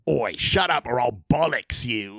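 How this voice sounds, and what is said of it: Exaggerated bad English accent. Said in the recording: “terrible English accent”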